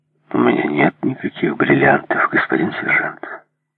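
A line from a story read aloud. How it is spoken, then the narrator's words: Calm. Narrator (Russian): спокойно ответил Майкл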